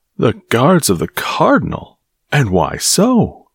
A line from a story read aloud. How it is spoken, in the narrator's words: asked Porthos warmly